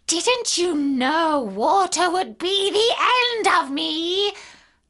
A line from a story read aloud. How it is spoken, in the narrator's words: asked the witch in a wailing, despairing voice